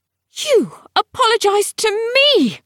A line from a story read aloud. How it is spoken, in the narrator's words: she bellowed